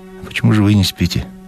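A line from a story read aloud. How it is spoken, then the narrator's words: Sighing question. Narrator (Russian): вздохнула и спросила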